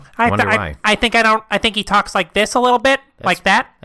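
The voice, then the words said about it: Big Bird character voice impression. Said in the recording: “Can you do Big Bird? ... That's pretty good. That's like weirdly good.”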